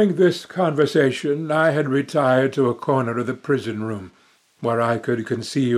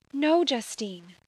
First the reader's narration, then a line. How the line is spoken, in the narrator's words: said Elizabeth